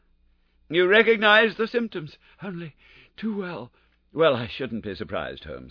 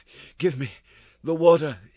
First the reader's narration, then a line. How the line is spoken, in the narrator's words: he gasped